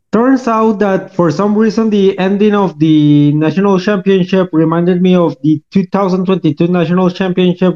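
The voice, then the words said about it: Thick Costa Rican Spanish accent. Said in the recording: “Sorry for my very thick accent. It's because I'm from Costa Rica”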